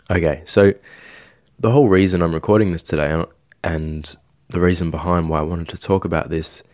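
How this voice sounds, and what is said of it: Slightly sick-sounding voice. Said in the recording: “my voice is a little bit funny right now. It's been a bit sick towards the start of this week”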